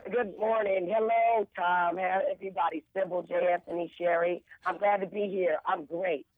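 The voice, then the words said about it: Hoarse, worn-out voice. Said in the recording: “You can tell my voice is gone because I went to the debate last night. And I had a few drinks”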